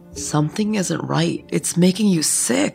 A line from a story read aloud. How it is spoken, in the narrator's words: I mumbled